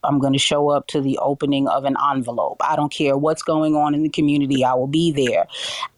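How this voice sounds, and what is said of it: New York accent, not Midwestern. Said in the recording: “I have a distinct sound. I'm from New York originally. I don't have that standard Midwest accent that many people have ... I don't sound like everyone in the market”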